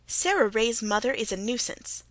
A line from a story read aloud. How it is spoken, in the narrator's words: snapped the Story Girl